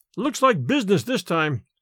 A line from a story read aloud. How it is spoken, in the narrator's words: exclaimed Larry